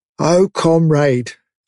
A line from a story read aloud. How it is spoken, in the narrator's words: began, in a dreary, whining sort of voice